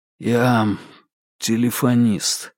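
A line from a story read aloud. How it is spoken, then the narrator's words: Hoarse confession. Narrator (Russian): хрипло признался Марк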